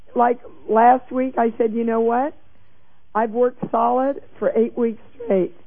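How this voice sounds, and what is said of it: Congested voice with a cold. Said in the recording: “I got a cold. You can hear it in my voice, I'm sure.”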